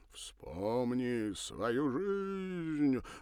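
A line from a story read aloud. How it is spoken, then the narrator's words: Mournful theatrical intoning. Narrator (Russian): затянул заунывно-театральным голосом, войдя в роль то ли мага, то ли гипнотизера-самоучки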